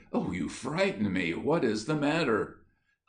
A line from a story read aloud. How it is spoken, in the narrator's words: Lincoln exclaimed